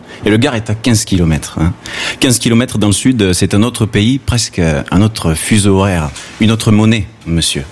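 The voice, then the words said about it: Southern French accent from the Gard. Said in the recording (French): “vous l'entendez certainement, ben je suis d'ici ... je suis du Sud, j'ai l'accent du Sud ... Ah mais toi tu as l'accent du Gard ... Quand je parle avec mon accent, à Marseille, on me prend pour un paysan”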